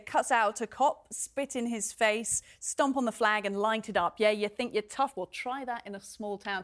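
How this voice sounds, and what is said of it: British accent. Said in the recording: “Sounds a bit different coming out of British mouth”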